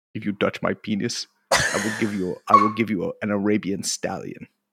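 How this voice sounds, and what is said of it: Put-on South African accent. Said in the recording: “Come on, do the South African accent. ... I'm doing Steve Biko there.”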